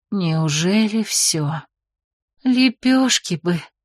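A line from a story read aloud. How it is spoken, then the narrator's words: Dreamy mutter. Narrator (Russian): мечтательно пробормотала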